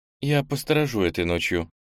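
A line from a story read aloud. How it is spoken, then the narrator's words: Quiet. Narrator (Russian): тихо сказала Ира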